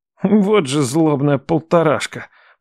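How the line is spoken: Through gritted teeth. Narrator (Russian): процедил Матвей

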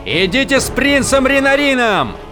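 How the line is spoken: Yelling. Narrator (Russian): заорал он своим людям

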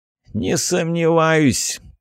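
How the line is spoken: Toothless mumbling commander. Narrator (Russian): прошамкал командир ополчения

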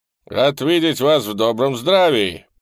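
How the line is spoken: Loud characteristic voice. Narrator (Russian): произнес он своим характерным громким голосом на чистом русском языке

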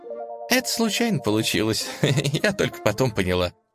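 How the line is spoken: Giggling. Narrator (Russian): хихикнула

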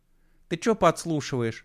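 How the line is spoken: Cheerful. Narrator (Russian): Весело спросила Маринка

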